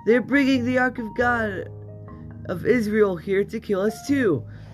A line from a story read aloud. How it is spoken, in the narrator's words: when the people of Ekron saw it, they cried out